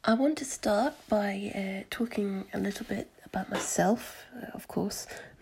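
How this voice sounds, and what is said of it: Mixed English and Scottish accent. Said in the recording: “I've got a weird accent because my mum was Scottish, so I spend a lot of time in Scotland, so I've got this strange combination accent”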